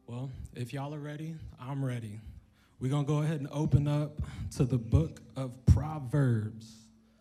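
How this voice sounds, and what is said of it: Preacher-style speaking voice. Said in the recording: “preacher voice? I gotta work on it. It's in the lab right now.”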